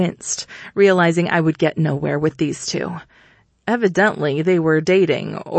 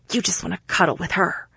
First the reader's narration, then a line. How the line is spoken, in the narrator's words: she added in a harsh whisper